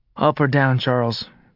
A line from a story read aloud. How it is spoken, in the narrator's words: Jack asked wearily